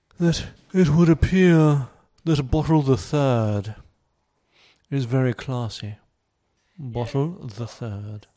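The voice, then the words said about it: Put-on posh British accent. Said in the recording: “in my finest posh British accent”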